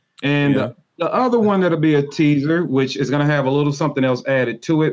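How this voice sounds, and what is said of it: Twangy accent. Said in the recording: “you make fun of my swang, my twang.”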